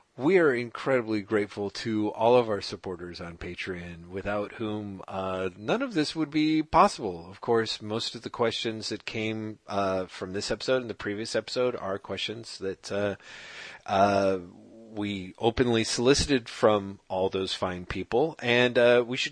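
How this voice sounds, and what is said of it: NPR radio announcer voice. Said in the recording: “get into your NPR voice”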